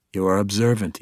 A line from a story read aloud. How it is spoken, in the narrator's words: said